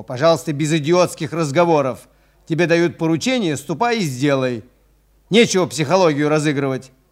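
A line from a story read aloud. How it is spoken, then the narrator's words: Angry yelling. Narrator (Russian): заорал на него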